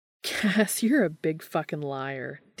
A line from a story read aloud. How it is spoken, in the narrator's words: Dean laughed